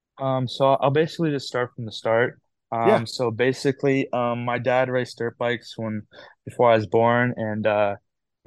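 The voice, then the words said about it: Slight Canadian accent. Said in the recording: “we can hear your Canadian accent a little bit”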